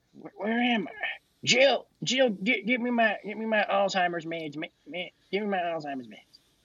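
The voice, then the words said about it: Joe Biden impression, older voice. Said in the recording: “my inferior Joe Biden impression ... he sounds like an older guy with like a slight Virginia accent ... he sounds like he has a very slight southern accent.”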